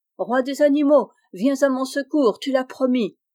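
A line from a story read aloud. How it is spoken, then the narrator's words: Shouted. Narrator (French): cria-t-il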